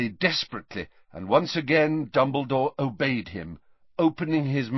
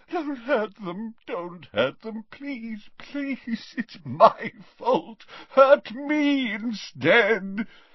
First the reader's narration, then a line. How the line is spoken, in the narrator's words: he moaned